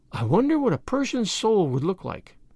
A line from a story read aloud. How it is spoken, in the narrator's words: said Priscilla, dreamily